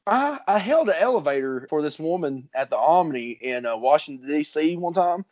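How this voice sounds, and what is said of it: Southern US accent. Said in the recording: “good old Southern hospitality ... I love your accent. She goes, what part of Australia are you from? ... Tennessee, but you're very close.”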